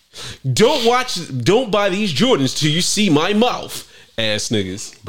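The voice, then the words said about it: Hyped YouTuber character voice. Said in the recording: “putting on my YouTuber voice ... let me get my YouTube face ... That's how them niggas be on them videos”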